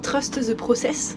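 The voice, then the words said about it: English accent. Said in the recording (French): “je pourrais le dire avec mon accent anglais aussi”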